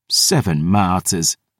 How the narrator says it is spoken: she scoffed

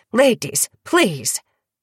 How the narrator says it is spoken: Arlen snapped

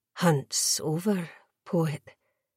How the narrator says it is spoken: Chiara murmured

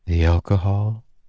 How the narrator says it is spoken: she asked softly

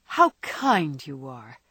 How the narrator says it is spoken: she exclaimed gratefully

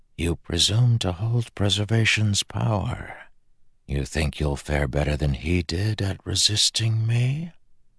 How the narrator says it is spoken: he whispered to Illinois in her own language

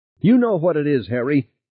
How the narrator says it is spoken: Beth shouted

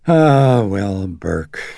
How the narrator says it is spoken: Sharon sighed

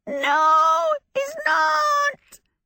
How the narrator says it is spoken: Calcifer screamed

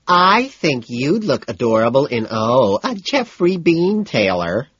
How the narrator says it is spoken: I whine in a high, faggy voice

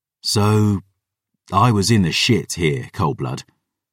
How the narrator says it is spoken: he sighed

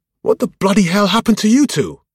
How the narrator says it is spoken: exclaimed

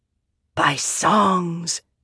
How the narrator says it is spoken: the stones whispered

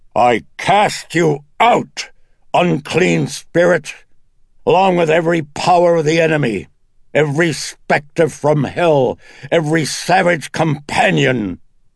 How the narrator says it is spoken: Merrin jolted the room with the lash of his voice as he commanded

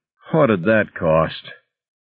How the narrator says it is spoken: Irwin, the accountant, groaned

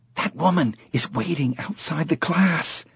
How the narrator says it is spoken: whispered

